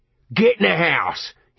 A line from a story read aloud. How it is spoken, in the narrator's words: he roared